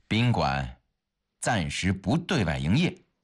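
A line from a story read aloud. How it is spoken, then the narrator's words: Cold reply. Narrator (Chinese): 看门的人 冷冷地回答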